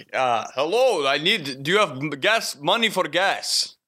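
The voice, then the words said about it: Put-on Middle Eastern accent. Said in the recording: “he was, I think, Middle Eastern. ... I'm not great at the accent, but I'm going to try. Sometimes it slips more Russian.”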